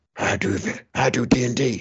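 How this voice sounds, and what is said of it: Imitates another person's voice. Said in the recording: “that's a very good Vin Diesel impression”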